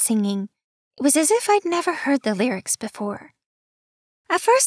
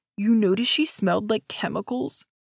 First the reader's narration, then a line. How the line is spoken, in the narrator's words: said in a low voice